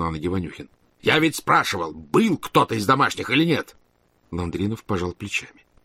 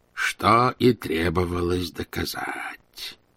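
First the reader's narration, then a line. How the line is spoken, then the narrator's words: Low voice. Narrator (Russian): повторил он вполголоса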